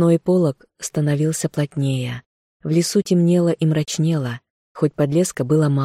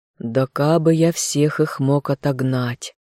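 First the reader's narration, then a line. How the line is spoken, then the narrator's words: Sad sigh. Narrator (Russian): Марун разом погрустнел, вздохнул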